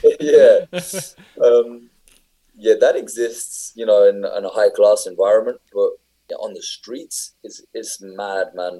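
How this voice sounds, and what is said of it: UK accent. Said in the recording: “my accent ... UK accent”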